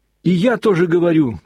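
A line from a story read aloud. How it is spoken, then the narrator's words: Sudden shout, boy. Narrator (Russian): прокричал вдруг мальчик Смуров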